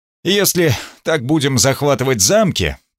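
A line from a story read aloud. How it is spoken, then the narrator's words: Grumbling. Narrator (Russian): проворчал Гунтер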